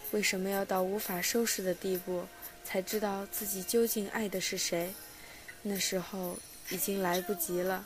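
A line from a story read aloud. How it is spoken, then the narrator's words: Heavy sigh. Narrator (Chinese): 他重重叹口气说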